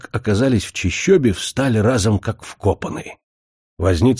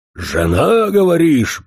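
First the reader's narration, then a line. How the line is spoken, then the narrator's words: Growled. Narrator (Russian): прорычал возница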